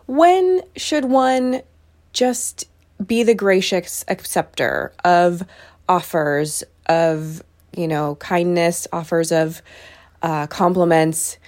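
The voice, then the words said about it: American accent. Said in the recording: “As you can tell from my voice, I am American”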